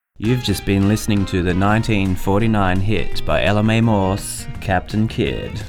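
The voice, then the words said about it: Put-on American radio announcer voice. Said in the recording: “you have such a sexy radio voice. ... I'm not sure why I'm speaking American.”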